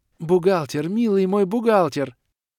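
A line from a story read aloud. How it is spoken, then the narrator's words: Joyful ringing singsong. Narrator (Russian): радостно и заливисто выводила Алиэлла Седри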